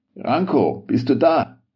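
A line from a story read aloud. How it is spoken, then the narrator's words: Called out. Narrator (German): rief Walter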